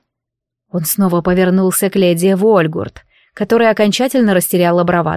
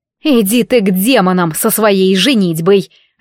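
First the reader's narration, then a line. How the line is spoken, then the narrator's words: Barked. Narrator (Russian): рявкнула директриса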